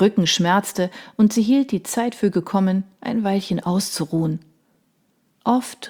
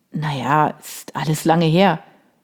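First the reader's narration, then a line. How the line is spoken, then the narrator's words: Creaky-voiced reply. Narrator (German): Vincent mit knarrender Stimme erwiderte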